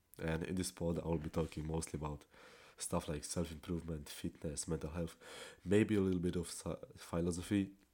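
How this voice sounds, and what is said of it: Polish accent, non-native English. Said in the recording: “my accent. Since I'm Polish, I'm not a native speaker”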